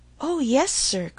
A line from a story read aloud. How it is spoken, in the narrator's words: cried she, with ready sympathy